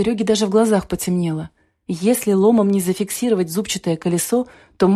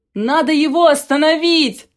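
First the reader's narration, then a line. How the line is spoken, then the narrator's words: Shout. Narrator (Russian): закричал Серега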